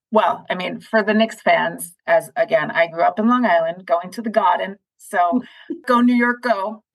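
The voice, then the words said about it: Long Island accent. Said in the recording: “you did hear my Long Island accent. Many people say, where did it go? It's here. I just mask it mostly.”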